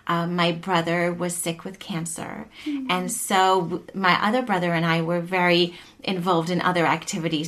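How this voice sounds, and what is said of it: South African accent, crisp T's. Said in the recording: “I grew up in South Africa. As I talk more, you'll hear my accent... You'll hear I really pronounce my T's and other sounds”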